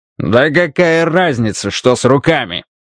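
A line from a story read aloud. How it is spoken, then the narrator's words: Barking. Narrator (Russian): рявкнул Карвер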